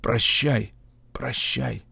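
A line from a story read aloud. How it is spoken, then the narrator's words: Whispered. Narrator (Russian): Он прошептал мне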